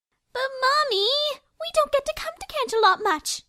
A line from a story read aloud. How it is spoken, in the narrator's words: Rarity whined